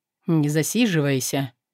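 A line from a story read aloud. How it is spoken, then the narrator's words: Even voice. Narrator (Russian): Он ровным голосом произнес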